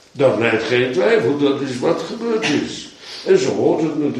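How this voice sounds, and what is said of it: Usual voice. Nothing is said of it.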